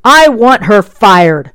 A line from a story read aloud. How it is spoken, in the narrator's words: Sipes yelled in the foyer